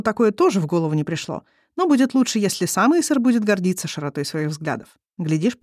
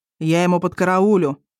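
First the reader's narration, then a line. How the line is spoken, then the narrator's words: Gloomy promise. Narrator (Russian): мрачно пообещал Исор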